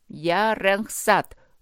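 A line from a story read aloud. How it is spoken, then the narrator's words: Loud hoarse voice. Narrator (Russian): громко и хрипло проговорили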